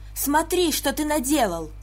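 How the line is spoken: Shouted. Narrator (Russian): закричала Мёртер

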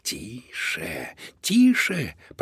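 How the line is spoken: Hissing. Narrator (Russian): прошипел мистер Луноброд

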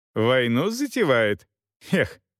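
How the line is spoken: Laughing. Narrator (Russian): Роха засмеялся

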